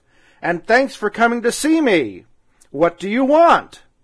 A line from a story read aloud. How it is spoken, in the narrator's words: answered the North Wind, for his voice was loud and gruff